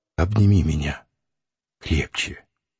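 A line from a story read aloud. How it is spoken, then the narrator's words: Quiet submissive whisper. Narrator (Russian): Она тихо и покорно прошептала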